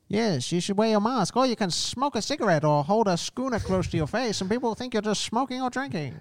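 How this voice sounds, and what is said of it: Put-on accent. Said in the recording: “I like your accent.”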